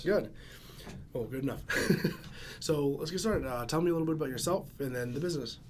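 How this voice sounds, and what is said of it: Hoarse, strained voice. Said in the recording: “my voice is out again”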